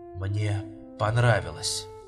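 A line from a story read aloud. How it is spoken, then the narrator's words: Whisper. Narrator (Russian): прошептал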